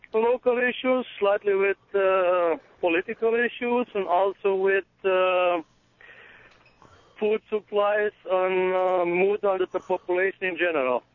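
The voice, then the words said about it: Unusual foreign accent. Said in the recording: “I'm intrigued with your... accent... It's a weird one... It's a weird accent”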